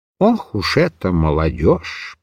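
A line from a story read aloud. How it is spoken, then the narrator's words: Muttering. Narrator (Russian): пробормотал Микиш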